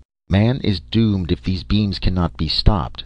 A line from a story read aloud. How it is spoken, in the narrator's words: said CR-21, present chief of the machine rulers, in the vibrationally correct emotionless tones of all the race of machines